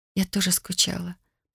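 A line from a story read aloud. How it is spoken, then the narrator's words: Tearful whisper. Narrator (Russian): прошептала, смаргивая подступившие слезы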